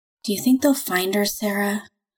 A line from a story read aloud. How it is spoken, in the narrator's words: Lex's words were soft, almost a whisper